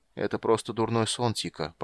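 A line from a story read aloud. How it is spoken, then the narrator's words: Mumbled. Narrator (Russian): пробормотал он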